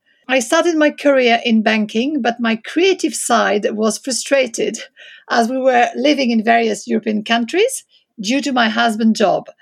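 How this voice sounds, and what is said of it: French accent. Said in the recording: “my background is French, as you can probably hear from my accent.”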